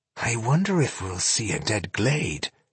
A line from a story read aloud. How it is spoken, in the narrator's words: murmured Tungdil